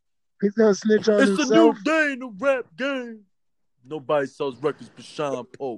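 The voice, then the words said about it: Imitates another person's voice. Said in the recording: “Worst Sean impression ever. First of all, if you're going to sound like Sean, you're supposed to sound like Biggie.”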